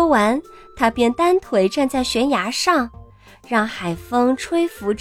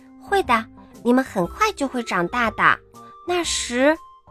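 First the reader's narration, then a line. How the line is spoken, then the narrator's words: Soft confident smiling. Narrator (Chinese): 达芬奇都会微笑着，充满自信地对自己的小翅膀轻声说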